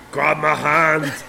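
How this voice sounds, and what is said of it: Imitates another person's voice. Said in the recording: “I'm so glad you did it in the voice that it should be. ... That's my Arnold impersonation.”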